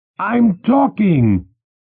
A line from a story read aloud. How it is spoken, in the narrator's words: Ursula shouted